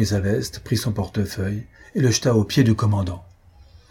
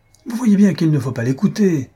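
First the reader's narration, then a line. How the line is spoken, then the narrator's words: Exclaimed. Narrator (French): s'écria Paulet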